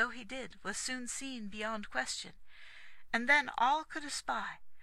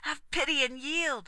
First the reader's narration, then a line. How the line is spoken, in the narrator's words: cried Aglovale